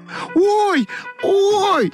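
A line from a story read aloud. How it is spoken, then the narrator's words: Shouted. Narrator (Russian): закричала Ойка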